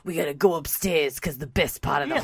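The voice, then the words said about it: Bronx mob-boss style accent. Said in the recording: “Sounds like he's from the Bronx. ... Like he's a mob boss. ... He sounds like a Tony Soprano-like character.”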